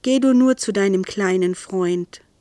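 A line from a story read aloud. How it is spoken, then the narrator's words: Gentle. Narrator (German): sagte sanft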